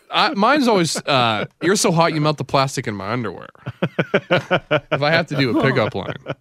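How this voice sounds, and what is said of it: Usual voice. Nothing is said of it.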